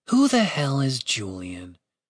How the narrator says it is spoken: Catherine murmured to herself

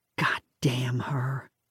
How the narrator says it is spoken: Lisa whispered

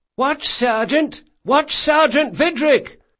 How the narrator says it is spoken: The man yelling was another watchman

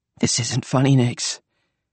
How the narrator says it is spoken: he said, his voice trembling

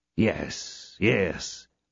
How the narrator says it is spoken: muttered D'Artagnan

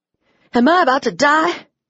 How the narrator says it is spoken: I wheezed

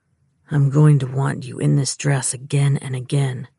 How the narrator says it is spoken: he growled

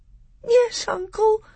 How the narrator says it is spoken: sobbed Caspian

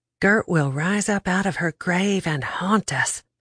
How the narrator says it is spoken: I whispered

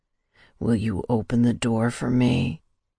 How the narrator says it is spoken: He whispered against my lips

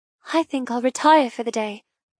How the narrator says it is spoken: I murmur

